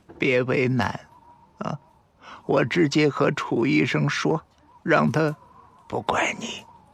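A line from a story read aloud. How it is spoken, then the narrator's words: Strained faint smile. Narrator (Chinese): 难得的笑了，但脸上基本不见笑容，只是嘴角困难的弯了一下，说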